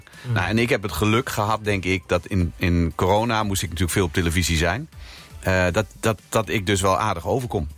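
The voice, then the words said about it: Eastern Dutch Twente regional accent. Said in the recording (Dutch): “dat Twentse, wat ik niet meer hoor, maar in ieder geval dat Oosterse accent, dat klinkt dus op landelijke televisie heel erg door ... je niet klinkt zoals de meesten klinken”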